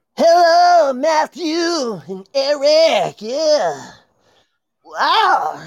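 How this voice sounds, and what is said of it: Impression of an aged rock singer. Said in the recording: “It's Joe Elliott. I'm old... my best impression... He has aged with his voice.”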